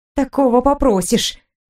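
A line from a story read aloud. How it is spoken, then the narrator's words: Muttered through teeth. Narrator (Russian): Пробормотала я сквозь зубы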